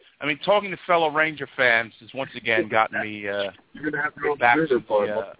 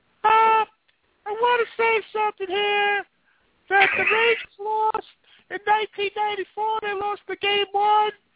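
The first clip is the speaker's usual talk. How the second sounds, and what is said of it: Imitates another person's voice. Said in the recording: “doing my best Cutter impersonation”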